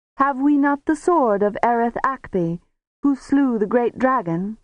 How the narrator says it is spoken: cried a young counselor

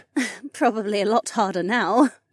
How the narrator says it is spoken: Becca giggled

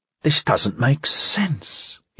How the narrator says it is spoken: he said, mouthing the words in something more than a whisper

